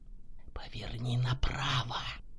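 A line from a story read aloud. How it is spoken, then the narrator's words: Insinuating inner whisper. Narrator (Russian): прошептал вкрадчивый голос в голове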